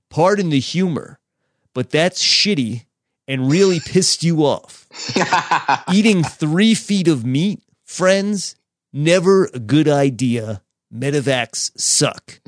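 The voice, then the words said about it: Impression of another person's voice. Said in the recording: “good Penner impression”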